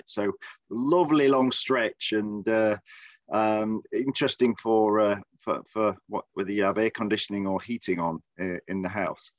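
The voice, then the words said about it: English Midlands accent. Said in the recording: “my accent originates from. If, if anybody's interested, it's from the Midlands of the United Kingdom ... I don't sound like uh, James Bond or the Queen or Sean Connery”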